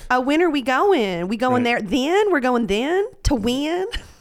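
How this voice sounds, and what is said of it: Texan accent. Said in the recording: “I like that accent... That's my natural accent... sound extra Texan”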